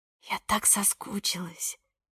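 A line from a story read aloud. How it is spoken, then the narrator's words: Whisper. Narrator (Russian): прошептала Ника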